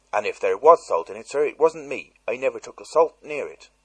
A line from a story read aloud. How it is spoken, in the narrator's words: she blurted out, unexpectedly